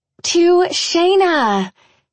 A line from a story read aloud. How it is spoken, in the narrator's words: Shelley yells above the roar of the other relieved models